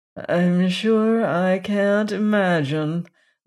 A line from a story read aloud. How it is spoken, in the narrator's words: groaned Aunt Wellington, prepared for anything